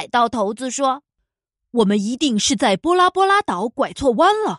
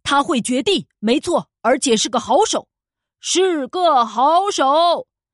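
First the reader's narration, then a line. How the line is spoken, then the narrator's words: Shouting. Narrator (Chinese): 对他那些手下大叫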